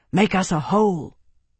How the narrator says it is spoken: Tarvi whispered hoarsely

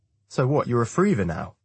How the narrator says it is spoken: I ask, with a slight laugh

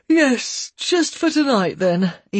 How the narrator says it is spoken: Ian agreed, yawning

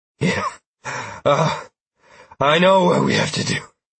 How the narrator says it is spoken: I gasped as if I was hopped up on caffeine and adrenaline

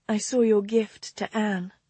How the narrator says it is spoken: she said softly

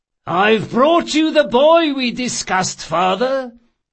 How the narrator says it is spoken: the thief-maker announced, loudly enough for several passers-by to hear him

